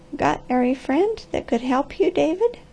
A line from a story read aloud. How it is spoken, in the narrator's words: with a quaver in her voice, and asked softly